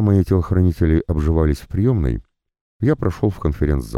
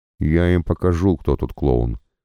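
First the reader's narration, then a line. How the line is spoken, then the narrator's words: Father grumbling. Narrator (Russian): пробурчал папа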